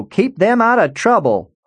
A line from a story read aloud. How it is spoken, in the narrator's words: Hollis yelled from the couch